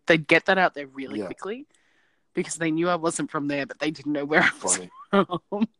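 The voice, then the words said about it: Mild Australian accent. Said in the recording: “my accent is Australian, but it's not overly Australian, but it's enough that they can tell that it's different”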